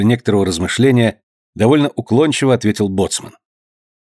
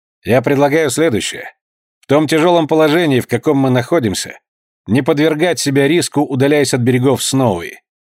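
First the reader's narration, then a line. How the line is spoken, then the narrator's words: Calm, confident. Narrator (Russian): начал спокойным и уверенным тоном Айртон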